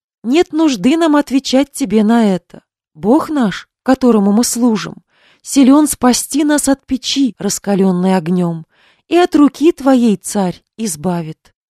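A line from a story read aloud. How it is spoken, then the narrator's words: Calm. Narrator (Russian): Спокойно глядя на печь, они сказали царю Навуходоносору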